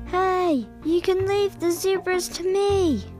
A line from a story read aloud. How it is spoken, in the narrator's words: Sarah called out